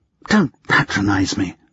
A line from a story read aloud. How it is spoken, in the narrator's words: she hissed